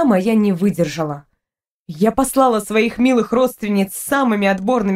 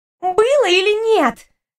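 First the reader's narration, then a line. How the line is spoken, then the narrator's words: Demanding exclamation. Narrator (Russian): требовательно воскликнула рыжая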